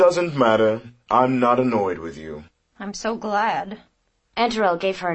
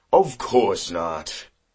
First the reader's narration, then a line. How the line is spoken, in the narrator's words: Antarel replied in a condescending tone